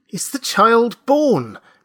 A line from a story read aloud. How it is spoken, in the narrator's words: begged Mr